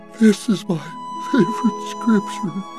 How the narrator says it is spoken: His nearly bald father, sniffling, whimpers

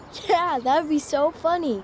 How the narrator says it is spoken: Liam laughed

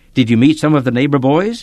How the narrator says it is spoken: called cheerfully

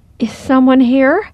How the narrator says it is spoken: My voice trembling, I called

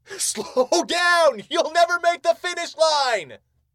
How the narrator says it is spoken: his coach yelled

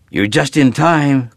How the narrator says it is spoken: Colby said excitedly

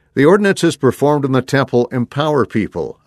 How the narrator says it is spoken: I said

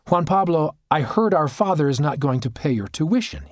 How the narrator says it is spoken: he said

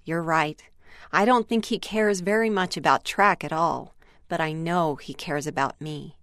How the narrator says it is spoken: paused for a moment and then softly responded

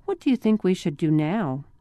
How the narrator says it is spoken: she asked softly

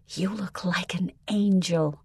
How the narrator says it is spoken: Mom whispered to Melissa

